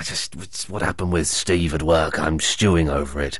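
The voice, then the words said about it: Put-on voice of a brooding man. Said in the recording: “That was my impression of a man stewing over something.”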